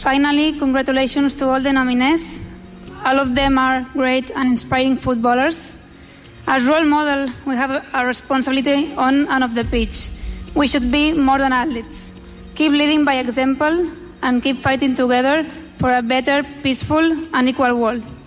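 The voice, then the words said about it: Speaks English with a good accent. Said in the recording (Catalan): “Molt bé aquest accent, eh? ... Es nota aquí una bona escola”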